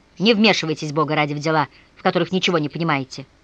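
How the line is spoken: Furious shout. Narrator (Russian): В ярости выкрикнул Вася

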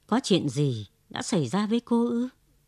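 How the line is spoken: Hermit's gentle question. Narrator (Vietnamese): vị ẩn sĩ dịu dàng hỏi

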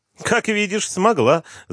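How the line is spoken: Laughing. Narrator (Russian): засмеялась Джилл

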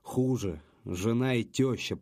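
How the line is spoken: Groaning. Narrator (Russian): простонал Леха

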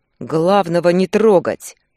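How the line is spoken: Loud roar. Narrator (Russian): прорычал на весь зал

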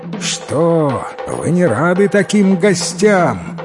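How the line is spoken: Shouting prince in human form. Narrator (Russian): крикнул им вслед царевич, обернувшись человеком

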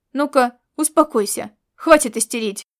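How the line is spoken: Growled, then soft coaxing. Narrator (Russian): рыкнул он и, спохватившись, снова перешел на мягкий увещевающий тон

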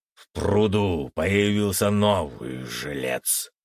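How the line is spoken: Deep bass voice. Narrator (Russian): пробасил он

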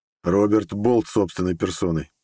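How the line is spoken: Snorting. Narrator (Russian): хмыкнул я

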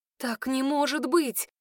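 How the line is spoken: Breathed out. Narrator (Russian): выдохнула я

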